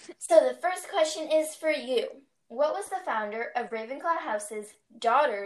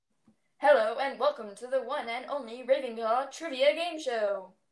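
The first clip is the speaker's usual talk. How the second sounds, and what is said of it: Put-on deep game show host voice. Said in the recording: “that deep voice is hard for me to keep up”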